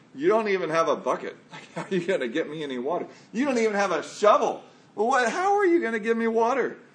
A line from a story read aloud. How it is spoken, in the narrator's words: the woman scoffed